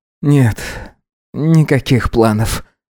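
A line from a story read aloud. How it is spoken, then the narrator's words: Tired reply. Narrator (Russian): ответил он устало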